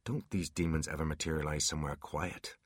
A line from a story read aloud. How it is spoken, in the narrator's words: Artemis replied in a whisper